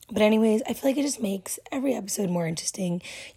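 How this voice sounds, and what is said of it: Hoarse, nearly lost voice. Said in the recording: “my voice is literally gone ... I have a super sensitive voice, so I lose it like all the time”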